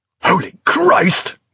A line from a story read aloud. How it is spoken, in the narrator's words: cried Prothero, half a shout of terror, half a gasp of despair